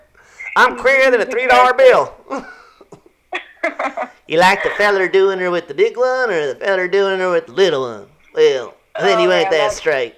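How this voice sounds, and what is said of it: Joe Exotic impression, Southern accent. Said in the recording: “I just love Joe Exotic. ... That accent's spot on.”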